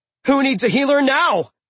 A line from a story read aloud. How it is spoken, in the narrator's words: I yelled